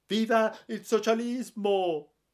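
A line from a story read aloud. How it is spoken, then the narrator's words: Sobbing. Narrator (Italian): singhiozzando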